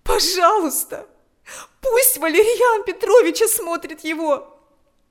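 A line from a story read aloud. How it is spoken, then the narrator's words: Pleading. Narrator (Russian): взмолилась она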